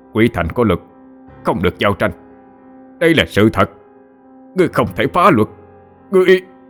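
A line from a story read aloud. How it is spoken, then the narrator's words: Shouting desperately. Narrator (Vietnamese): Lúc này chỉ biết gào lên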